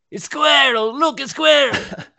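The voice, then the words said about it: Distracted dog character voice. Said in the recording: “his distracted dog impression.”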